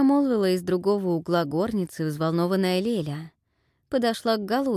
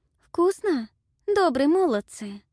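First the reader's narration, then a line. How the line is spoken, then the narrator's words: Timid question. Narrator (Russian): робко спросила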